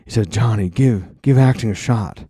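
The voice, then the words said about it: Weak Nicolas Cage impression. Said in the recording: “My Nick Cage accent fell way off. I haven't practiced it in many months.”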